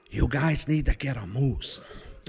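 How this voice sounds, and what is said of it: Exaggerated Midwestern accent. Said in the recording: “That's the way he talked, in this exaggerated Midwestern accent.”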